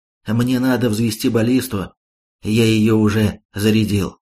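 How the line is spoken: Calm. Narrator (Russian): крыс спокойно ответил

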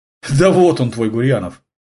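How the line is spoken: Wry snort. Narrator (Russian): хмыкнула Татьяна

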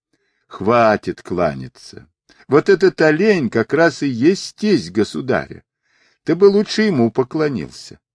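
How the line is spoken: Laughing. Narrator (Russian): Сунь-Укун, смеясь, сказал

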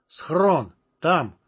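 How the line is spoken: Strained, exhausted words. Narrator (Russian): выдавил из себя, словно потратив на свои слова последние силы

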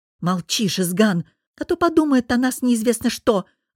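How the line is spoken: Snapping retort. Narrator (Russian): огрызнулась Соня

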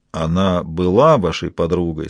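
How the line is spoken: Very quiet. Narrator (Russian): сказал он очень тихо

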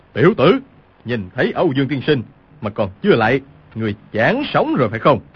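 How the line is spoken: Shouting. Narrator (Vietnamese): Cừu Thiên Nhận quát lên

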